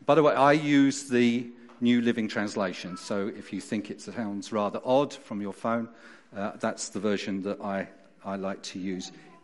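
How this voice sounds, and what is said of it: South London accent. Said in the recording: “as you can hear from my accent... I wasn't born and brought up in Derbyshire. I was born in South London”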